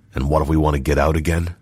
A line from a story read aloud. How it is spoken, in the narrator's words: asked Rochard curtly